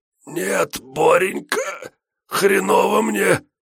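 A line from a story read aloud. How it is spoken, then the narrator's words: Hoarse puffing. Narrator (Russian): сипло пропыхтел Штырь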